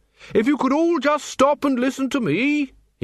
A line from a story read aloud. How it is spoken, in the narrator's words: he bellowed